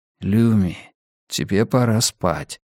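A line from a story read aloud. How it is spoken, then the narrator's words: Whispered. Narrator (Russian): прошептал Йона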